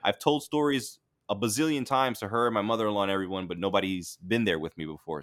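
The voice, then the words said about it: Mixed Florida and New York accent. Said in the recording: “I have this, like, half Florida, half, you know, New York accent where I sound like a suburban dad now”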